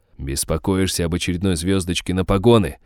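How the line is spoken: Growl, barely suppressed rage. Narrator (Russian): рыкнул я, неспособный до конца подавить приступ бешенства

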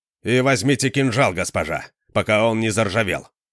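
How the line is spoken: Sharp, curt. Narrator (Russian): резко бросил он

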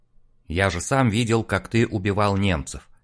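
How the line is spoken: Dry. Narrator (Russian): сухо произносит Олег

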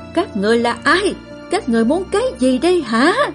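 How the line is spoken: Yelling. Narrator (Vietnamese): Tôn Di đưa mắt nhìn xung quanh rồi gào lên

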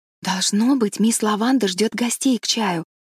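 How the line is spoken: Whisper. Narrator (Russian): прошептала Энн

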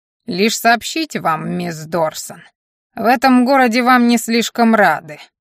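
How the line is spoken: Creaky voice. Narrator (Russian): произнес Мальен скрипучим голосом

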